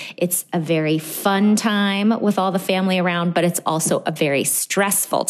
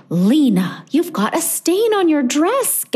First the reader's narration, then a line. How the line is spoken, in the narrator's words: gasped Mom